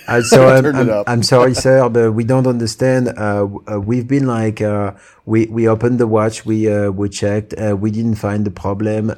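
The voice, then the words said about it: French accent. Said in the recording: “You have to put the French accent on. That is your voice. ... I appreciate this with the French accent from the French guy.”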